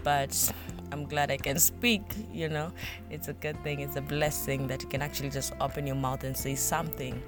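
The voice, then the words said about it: Hoarse, irritated throat voice. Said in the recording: “I think I'm getting like a flu somehow. So I have some irritation on my throat. So my voice is not so good today.”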